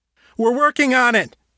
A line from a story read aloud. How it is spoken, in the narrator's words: Harold shouted back